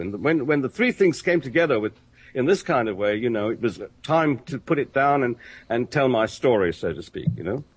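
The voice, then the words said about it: English accent. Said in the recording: “how much they love your accent ... the first time I've been called old chap by a real Englishman”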